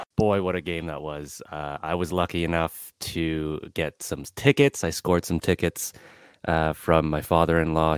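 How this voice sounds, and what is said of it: Slightly raspy voice. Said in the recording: “my voice sounds a little raspy”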